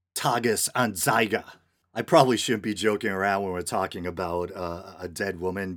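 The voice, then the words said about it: New England accent. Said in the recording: “I'm working with a barbaric New England accent here.”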